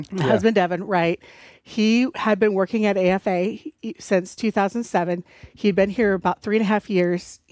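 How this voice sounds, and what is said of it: Slight North Dakota accent. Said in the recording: “I detect a little North Dakota accent right there... My accent is a mismatch of several areas.”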